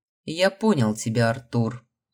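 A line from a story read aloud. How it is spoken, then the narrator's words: Steely reply. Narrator (Russian): стальным голосом ответил высший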